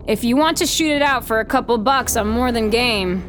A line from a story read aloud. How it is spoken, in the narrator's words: I shout back